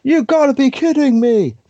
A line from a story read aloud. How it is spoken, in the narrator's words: Michael Cole went out of his way to try and ruin that for me by shouting